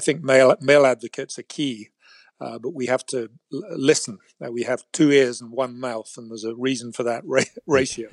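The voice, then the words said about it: British accent. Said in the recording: “you don't have a British accent just because you went to the British school in San Francisco”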